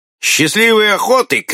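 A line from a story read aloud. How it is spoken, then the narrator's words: Ironic shout. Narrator (Russian): крикнул канадец с иронией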